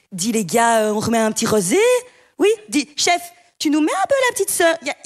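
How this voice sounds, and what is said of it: Put-on Belgian accent. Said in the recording (French): “Il faut absolument qu'ils répètent plusieurs fois par jour avec l'accent.”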